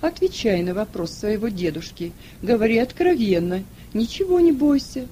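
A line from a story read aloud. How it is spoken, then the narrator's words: Tender. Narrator (Russian): ласково сказал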